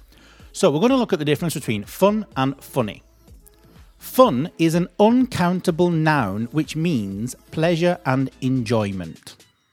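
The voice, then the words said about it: Manchester English accent. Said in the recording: “my pronunciation is a Manchester pronunciation ... I'm from Manchester.”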